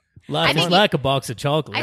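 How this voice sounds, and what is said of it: Forrest Gump character voice. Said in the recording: “great Forrest impression”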